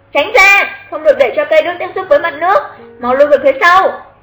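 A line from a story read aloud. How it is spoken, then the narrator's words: Hurried loud shout. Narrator (Vietnamese): Xuất Trần vội lớn tiếng hét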